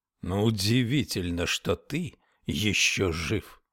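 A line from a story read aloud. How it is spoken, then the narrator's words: Growled. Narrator (Russian): прорычал Абернесси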